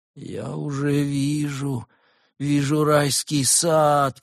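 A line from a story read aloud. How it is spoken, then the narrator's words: Sick person moaning. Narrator (Russian): простонал больной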